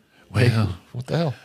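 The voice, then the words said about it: Ronald Reagan impression. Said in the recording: “I turned into Ronald Reagan for a minute ... I do a good one ... that impression”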